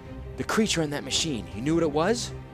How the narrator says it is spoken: gasping for breath

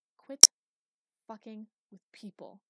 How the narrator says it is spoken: he hissed

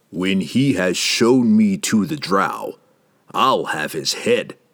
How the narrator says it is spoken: Jerden growled

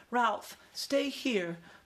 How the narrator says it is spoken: pleaded his mother

